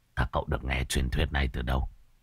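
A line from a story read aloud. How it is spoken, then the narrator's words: Smiling question. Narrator (Vietnamese): Anh gầy khẽ nở nụ cười, hỏi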